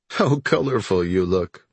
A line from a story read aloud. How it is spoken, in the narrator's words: Marlin said, laughing